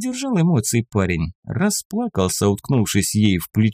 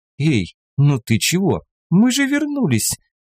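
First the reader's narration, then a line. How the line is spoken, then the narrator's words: Laughing fox. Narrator (Russian): Засмеялась лиса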